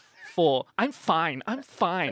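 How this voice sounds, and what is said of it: Imitates another person's voice. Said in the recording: “I'm gonna do an impersonate. Jenny.”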